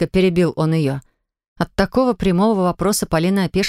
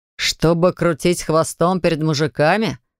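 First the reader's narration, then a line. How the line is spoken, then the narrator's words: Angry snort. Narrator (Russian): хмыкнул он зло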